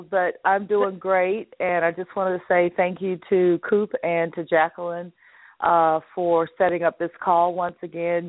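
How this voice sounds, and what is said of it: Congested voice from a cold. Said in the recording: “I've got a cold”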